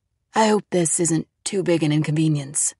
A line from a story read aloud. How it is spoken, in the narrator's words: Rivera said softly